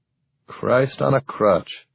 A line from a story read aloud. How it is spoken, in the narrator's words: Captain Luce muttered